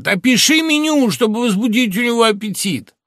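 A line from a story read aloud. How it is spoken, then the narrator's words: Shouting after someone. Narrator (Russian): он крикнул мне вслед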